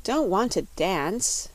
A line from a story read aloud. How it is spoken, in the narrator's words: said Button-Bright, sitting down wearily